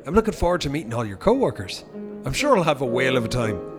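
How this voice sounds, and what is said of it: Irish accent. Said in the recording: “Is that an Irish accent? ... I'm from Cork.”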